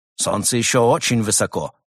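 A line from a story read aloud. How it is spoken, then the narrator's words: Irritated objection. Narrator (Russian): раздраженно возразил Крот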